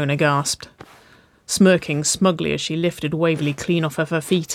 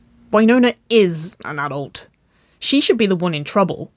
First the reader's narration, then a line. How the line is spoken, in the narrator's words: Waverly grumbled